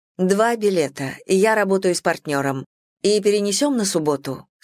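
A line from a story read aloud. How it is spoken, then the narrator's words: Plain. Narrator (Russian): сказала я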